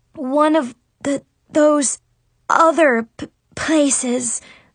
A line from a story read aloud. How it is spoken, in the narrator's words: I stammered